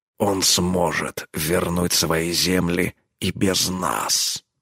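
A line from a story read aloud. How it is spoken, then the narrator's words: Growled. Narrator (Russian): рыкнул он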